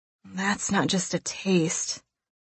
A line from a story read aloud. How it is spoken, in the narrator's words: I moan